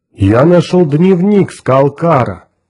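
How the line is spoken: Joyful booming. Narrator (Russian): радостно прогудел Грег

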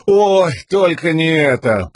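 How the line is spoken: Moaning. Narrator (Russian): простонал Лопан

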